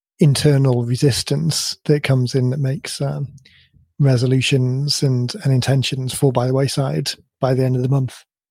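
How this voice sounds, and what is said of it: Croaky voice. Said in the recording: “you can probably hear that my voice is a little bit croaky”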